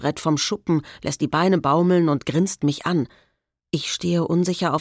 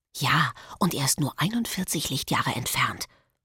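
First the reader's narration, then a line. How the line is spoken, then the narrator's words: Whispering back. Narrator (German): flüstert Marek zurück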